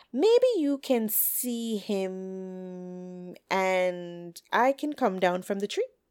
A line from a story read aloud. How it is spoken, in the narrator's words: Hen cackled